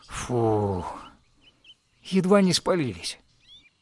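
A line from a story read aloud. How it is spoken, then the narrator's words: Relieved exhale. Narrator (Russian): Михаил с облегчением выдохнул и произнес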